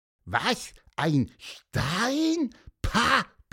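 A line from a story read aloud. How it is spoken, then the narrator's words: Squeaky peep. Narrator (German): piepste Pieper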